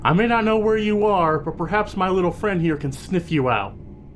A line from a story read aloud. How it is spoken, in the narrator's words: she'll shout out